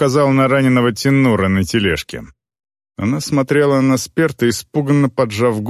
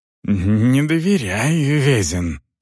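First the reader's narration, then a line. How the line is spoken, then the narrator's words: Muttering. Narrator (Russian): пробормотал Сперт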